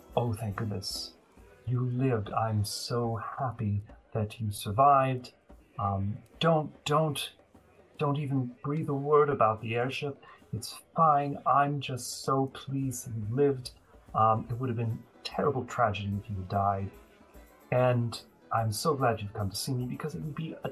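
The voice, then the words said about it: Woman's voice with slight accent. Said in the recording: “she has a slight accent.”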